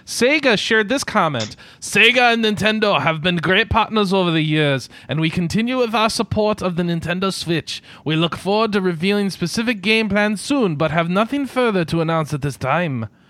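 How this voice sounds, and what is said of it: Unidentifiable put-on reading accent. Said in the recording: “The accent, really?... I don't know what that one was either.”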